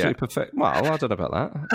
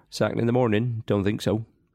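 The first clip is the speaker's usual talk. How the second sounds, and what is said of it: Ian Holloway impression, West Country. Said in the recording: “your famous, and it is famous, Ian Holloway impression ... Absolute perfection”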